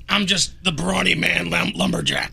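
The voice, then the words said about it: Gruff imitated movie character voice. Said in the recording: “People are cringing on that voice you just used. Was that your sling blade voice”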